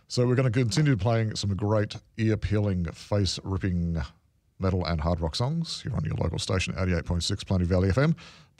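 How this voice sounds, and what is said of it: Hoarse, slightly rough voice. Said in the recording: “I'm getting a bit of a hoarse and cough in my throat here”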